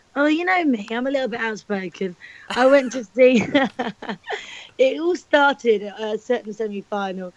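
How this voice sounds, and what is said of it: Hoarse, strained voice. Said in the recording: “why you have lost your voice”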